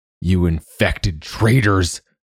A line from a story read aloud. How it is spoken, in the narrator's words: Hickory bellowed behind them